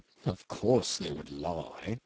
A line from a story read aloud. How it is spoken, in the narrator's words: One old skipper murmur